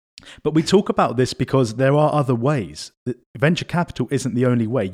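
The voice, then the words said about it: British accent. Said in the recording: “my dodgy accent ... Because of your Britishness.”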